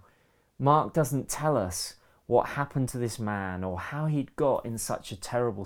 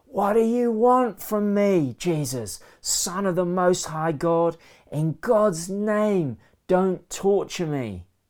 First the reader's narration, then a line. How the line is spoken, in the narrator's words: shouts at the top of his voice